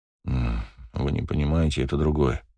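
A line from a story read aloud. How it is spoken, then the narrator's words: Muttered. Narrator (Russian): пробормотал я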